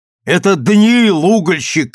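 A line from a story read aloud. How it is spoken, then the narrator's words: Shouted. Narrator (Russian): крикнул я Станиславу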